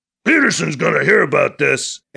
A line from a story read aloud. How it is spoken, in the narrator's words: Anton growls